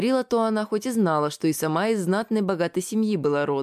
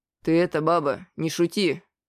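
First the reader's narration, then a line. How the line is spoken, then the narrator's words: Stern merchant. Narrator (Russian): строго сказал купец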